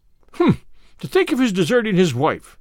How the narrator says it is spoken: said indignantly

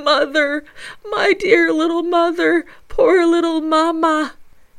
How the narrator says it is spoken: he sobs uncontrollably, crying

